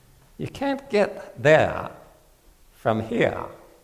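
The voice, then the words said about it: Weak attempt at Maine accent. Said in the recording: “Can't really do a Maine accent”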